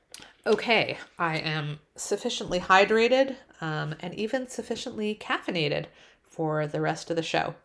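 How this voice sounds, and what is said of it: Canadian accent. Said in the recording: “I think I do have the Canadian accent on, especially on certain words, about, sorry.”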